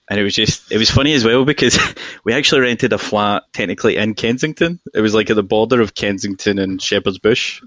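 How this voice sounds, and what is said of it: Glaswegian Scottish accent, toned down. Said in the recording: “I'm very obviously from Glasgow, right? And this is my accent toned down ... Mine was really strong.”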